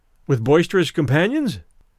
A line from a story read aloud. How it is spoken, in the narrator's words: I supplied the words in my cheerfulest tone